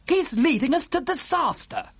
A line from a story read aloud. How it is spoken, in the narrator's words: cried the head of the Air Force